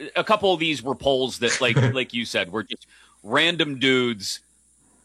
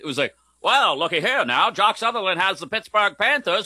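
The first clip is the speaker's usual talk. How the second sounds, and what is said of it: Old-timey radio announcer voice. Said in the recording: “Do the rest of the show in that voice. ... Old timey radio voice. ... nailed it.”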